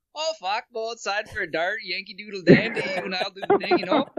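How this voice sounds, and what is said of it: Put-on Canadian accent. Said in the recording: “The Canadian guy's like”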